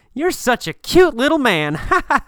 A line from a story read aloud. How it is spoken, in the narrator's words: a tall, big man sees him and laughs and says